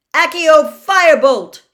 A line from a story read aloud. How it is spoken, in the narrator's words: shouted